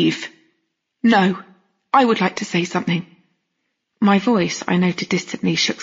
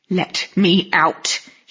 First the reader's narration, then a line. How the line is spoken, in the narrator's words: he hissed through his fingers